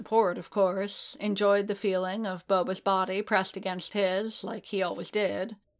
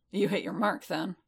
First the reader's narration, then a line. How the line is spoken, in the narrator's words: Bubba muttered